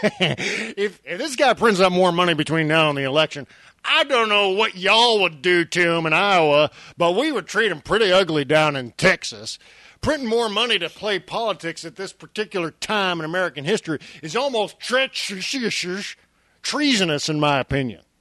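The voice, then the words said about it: Imitates another person's voice. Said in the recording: “I like that you do the voice. That's good.”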